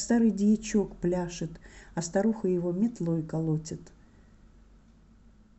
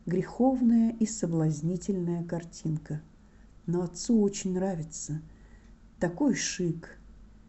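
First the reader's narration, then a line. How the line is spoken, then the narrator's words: Whispered advice. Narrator (Russian): Преосвященный печально прошептал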